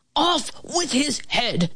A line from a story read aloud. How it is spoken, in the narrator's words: the king shouted at the cook